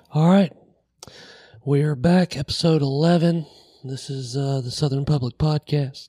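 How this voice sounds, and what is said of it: Hoarse voice. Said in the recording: “As you can tell, I'm still hoarse.”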